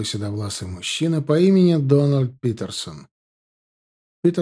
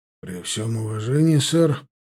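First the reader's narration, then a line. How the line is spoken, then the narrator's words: Husky sigh. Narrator (Russian): хрипловато вздохнул Уильям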